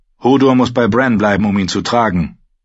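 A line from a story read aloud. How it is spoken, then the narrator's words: Gruff wildling woman. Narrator (German): sagte die Wildlingsfrau barsch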